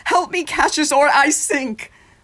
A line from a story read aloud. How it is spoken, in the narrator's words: Caesar cried